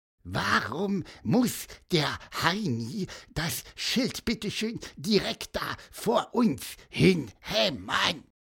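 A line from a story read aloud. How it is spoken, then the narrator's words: Growled. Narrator (German): knurrte Pieper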